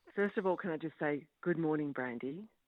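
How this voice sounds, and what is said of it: Attempted sexy, sultry voice. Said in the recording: “That was my best attempt at a sexy voice”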